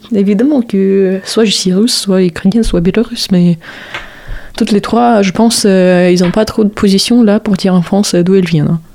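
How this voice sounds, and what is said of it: Slight Eastern European accent. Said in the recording (French): “t'as un petit accent... mon petit accent”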